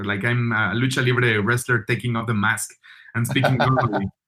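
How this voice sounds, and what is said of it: Mexican-accented English. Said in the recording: “my accent, like Mexican accent,”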